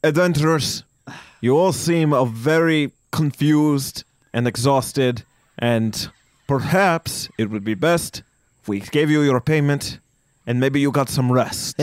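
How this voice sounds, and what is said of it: Character voice with a changed accent. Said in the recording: “he changed his accent again.”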